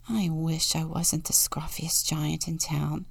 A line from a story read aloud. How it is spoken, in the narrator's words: he said sadly